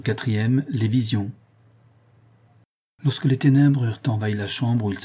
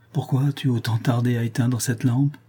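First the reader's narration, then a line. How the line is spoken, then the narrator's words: Plain. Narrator (French): dit Jacques Ferrand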